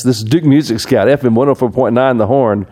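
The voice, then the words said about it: Exaggerated radio announcer voice. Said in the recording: “That sounds like the radio voice. ... That's the radio voice. ... I did like to talk in that voice every now and then”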